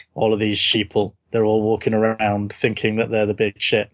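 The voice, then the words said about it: Bored monotone character voice. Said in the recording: “my Mr. Robot voice, I talk in even more of a bored monotone”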